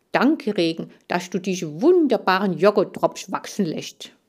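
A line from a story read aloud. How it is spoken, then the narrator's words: Mumbling with full mouth. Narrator (German): Er nahm einen Joghurttropf ins Maul und nuschelte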